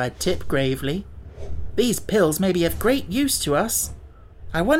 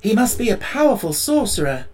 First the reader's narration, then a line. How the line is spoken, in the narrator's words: exclaimed the Tin Woodman